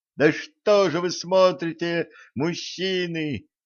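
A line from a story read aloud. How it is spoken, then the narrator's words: Desperate mother shouting. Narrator (Russian): отчаянно закричала мать Альвы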